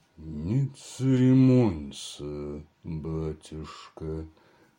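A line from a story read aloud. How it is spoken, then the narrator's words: Muffled reply. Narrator (Russian): отвечал тот глухо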